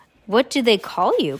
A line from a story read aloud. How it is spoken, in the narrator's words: Klaus asked